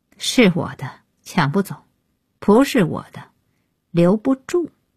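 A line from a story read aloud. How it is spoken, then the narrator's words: Cold interruption. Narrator (Chinese): 安爷开口冷冷打断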